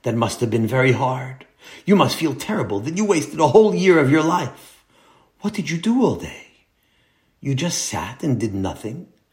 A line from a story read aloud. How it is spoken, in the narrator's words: whispered Nachum